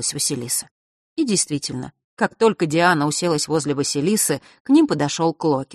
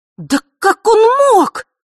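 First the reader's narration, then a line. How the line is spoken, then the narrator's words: Contemptuous exclamation. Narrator (Russian): воскликнула она с презрением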